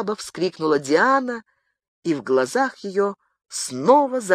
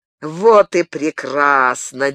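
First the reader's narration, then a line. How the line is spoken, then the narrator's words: Wild laughter. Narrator (Russian): дико захохотал лорд Вентворс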